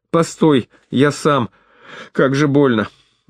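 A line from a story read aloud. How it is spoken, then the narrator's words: Groaning in pain. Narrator (Russian): Простонал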